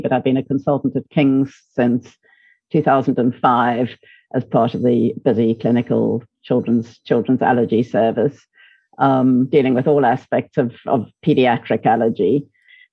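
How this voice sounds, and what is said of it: South African accent. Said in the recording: “From my South African accent, you can probably hear that I didn't come from the UK originally.”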